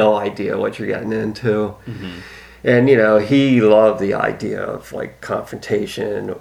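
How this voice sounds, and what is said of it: Usual voice. Nothing is said of it.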